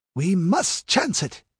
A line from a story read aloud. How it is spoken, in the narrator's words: gasped Nabonidus